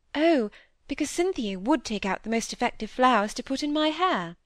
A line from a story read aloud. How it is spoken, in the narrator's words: exclaimed, eagerly